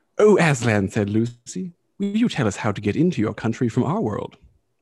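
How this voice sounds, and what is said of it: Put-on British accent, little girl. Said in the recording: “forgive the voice ... This is a little girl speaking, not a 24 year old man faking a British accent.”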